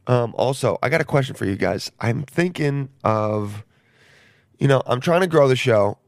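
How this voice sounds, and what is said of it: Voice going hoarse. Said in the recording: “my voice my voice is going pretty quickly.”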